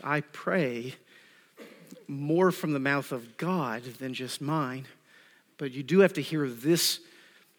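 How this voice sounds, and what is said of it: Southern US accent. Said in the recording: “accent and inflection, Southern U.S. accent”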